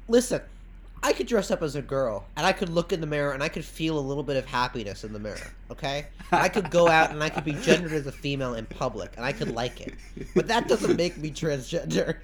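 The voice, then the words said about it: Imitates another person's voice. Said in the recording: “let me do an impression of him”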